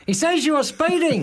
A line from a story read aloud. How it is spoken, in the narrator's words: Brett yelled